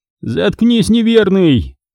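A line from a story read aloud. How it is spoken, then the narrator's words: Yell. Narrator (Russian): заорал его товарищ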